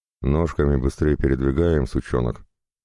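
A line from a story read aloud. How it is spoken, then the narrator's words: Grumble. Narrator (Russian): пробурчал один из конвоиров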